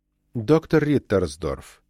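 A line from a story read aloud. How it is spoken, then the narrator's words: Soft. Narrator (Russian): мягко сказал он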